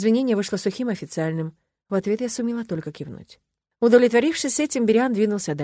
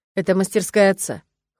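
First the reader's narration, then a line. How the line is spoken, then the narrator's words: Cold explanation. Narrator (Russian): холодно пояснил Монт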